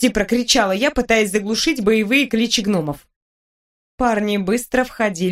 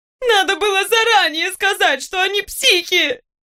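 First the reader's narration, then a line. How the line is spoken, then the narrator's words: Desperate sobbing girl. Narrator (Russian): в отчаянии всхлипнула бедная девушка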